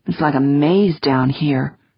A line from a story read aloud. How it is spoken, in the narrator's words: Wonderly murmured